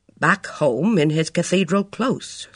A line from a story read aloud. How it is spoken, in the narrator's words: said Father